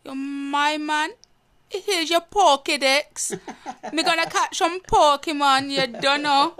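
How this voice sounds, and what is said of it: Put-on Jamaican patois accent. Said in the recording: “Jamaican accent, like speaking patois ... Can you do a patois?”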